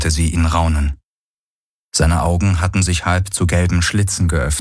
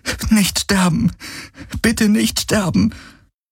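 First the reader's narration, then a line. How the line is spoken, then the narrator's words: Repeated pleading. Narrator (German): flehte sie immer wieder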